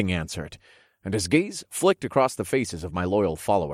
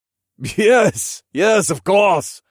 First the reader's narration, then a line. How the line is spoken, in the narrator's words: the king laughed